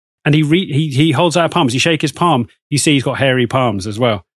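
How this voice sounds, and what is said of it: Usual voice. Nothing is said of it.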